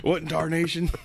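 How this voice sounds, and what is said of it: Put-on Southern accent. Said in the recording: “I can't go into my Southern accent.”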